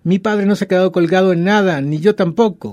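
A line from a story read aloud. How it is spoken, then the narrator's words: Shouted. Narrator (Spanish): gritó Pierre Antón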